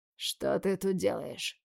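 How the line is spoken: Hoarse question. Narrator (Russian): хрипло спрашиваю

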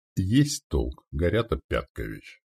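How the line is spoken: Calm. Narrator (Russian): произнес спокойно сотник

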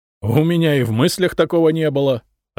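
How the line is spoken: Loud laughter. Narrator (Russian): расхохотался самодержец

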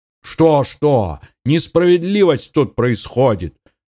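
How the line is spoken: Yelled reply. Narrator (Russian): завопил в ответ противник подполковника

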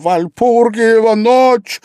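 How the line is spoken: Desperate cry. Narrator (Russian): В порыве отчаяния он вскрикнул

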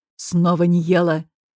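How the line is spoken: Angry, clipped. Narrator (Russian): зло чеканит

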